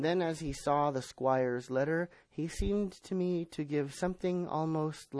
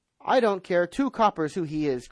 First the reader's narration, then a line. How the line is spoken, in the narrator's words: cried Silver